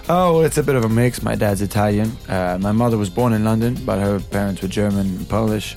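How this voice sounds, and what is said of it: Mixed European accent. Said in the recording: “you sound different to speak to than you do singing. So that accent ... a rather lovely European ... Eurotrash accent ... that lovely accent”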